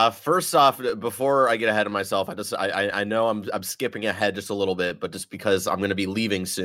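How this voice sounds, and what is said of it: Usual voice. Nothing is said of it.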